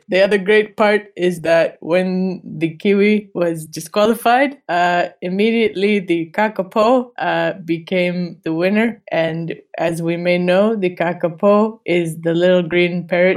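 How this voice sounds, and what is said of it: Drifting into a vaguely Hispanic accent. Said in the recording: “Why are you like drifting into ... Vaguely Hispanic accent?”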